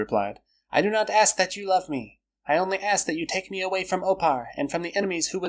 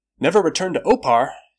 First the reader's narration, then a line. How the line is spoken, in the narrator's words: he exclaimed